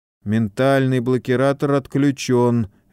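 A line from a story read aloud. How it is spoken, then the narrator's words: Lifeless voice. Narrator (Russian): мертвым голосом произнес он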